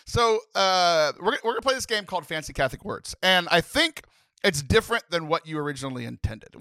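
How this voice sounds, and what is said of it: Usual voice. Nothing is said of it.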